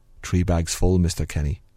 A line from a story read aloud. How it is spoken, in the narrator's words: under my breath